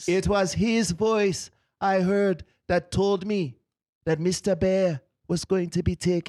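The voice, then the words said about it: Put-on Rasta accent. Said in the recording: “yes, I'm a Rasta shaman. ... He taught me everything I know, even this accent.”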